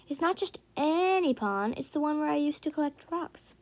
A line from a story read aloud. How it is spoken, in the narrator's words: Kuiper said brightly